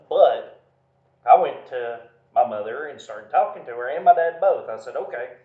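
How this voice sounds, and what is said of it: Southern US accent. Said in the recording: “I'm redneck. I speak southern.”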